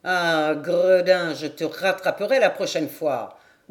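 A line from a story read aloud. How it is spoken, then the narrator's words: Growling. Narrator (French): grondait Maradour toutes les fois qu'un mulet plus agile franchissait d'un bond le filet et allait se perdre au loin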